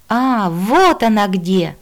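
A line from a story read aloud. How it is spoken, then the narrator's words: Joyful child's exclamation. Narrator (Russian): радостно воскликнул детский голосок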